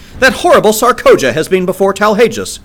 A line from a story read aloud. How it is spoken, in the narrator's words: she cried